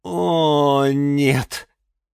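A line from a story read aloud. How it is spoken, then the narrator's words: Groaning. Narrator (Russian): простонал Юра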